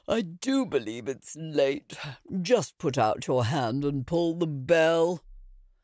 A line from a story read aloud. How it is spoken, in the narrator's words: said the elder woman, yawning